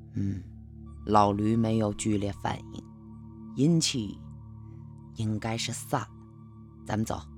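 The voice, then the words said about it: Quiet, hushed speaking voice. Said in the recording (Chinese): “小声地说”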